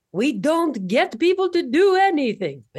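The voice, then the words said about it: Put-on French accent. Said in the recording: “How's that French accent? Yeah. Pretty good.”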